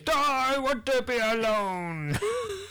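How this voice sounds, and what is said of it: Mopey emo Frankenstein impression. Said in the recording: “emo, emo Frankenstein ... do a good impression”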